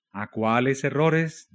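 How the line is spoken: Plain. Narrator (Spanish): dijo Hus

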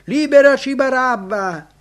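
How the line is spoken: Crowd shouting. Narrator (Italian): gridarono

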